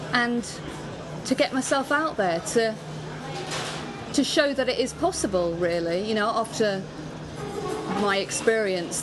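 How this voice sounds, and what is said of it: Southeast English accent. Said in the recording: “your accent, you're typified as being from the southeast”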